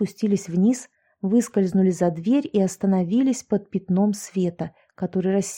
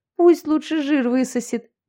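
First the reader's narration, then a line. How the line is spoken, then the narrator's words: Nervous chuckle. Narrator (Russian): Яшка хохотнула, но получилось это как-то нервно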